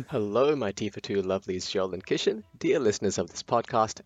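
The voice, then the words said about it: Australian accent. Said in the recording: “you might be able to tell from my accent, but I am coming to you all the way from Australia”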